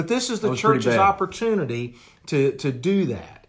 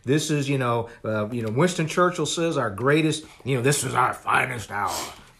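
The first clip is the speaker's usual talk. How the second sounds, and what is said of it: Imitates another person's voice. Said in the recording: “my bad Winston Churchill impression”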